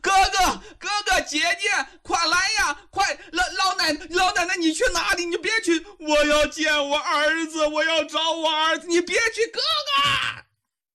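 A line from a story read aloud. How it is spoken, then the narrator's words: Repeated frantic shouting. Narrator (Chinese): 韩冰一个劲的在那里喊呐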